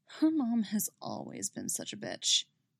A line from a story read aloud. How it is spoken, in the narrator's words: she murmurs